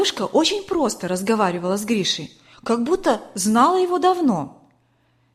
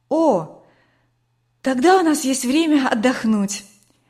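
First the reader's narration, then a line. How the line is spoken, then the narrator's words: Relieved sigh. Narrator (Russian): облегченно вздохнула Катя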